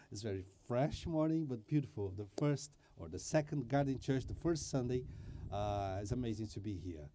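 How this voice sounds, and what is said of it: Strong foreign accent in English. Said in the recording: “I am the guy with the most beautiful accent of this church”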